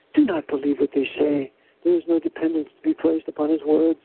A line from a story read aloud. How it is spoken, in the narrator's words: another, whispered